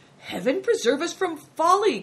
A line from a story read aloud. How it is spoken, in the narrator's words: cried